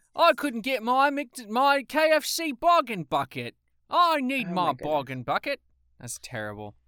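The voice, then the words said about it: Attempted English accent, still practicing. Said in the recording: “I'm going to keep trying at this English accent thing.”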